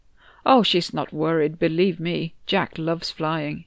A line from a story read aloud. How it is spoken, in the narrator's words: Tonio said